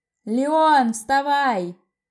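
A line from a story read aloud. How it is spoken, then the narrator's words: Hoarse yell. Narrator (Russian): заорал хриплым голосом Коста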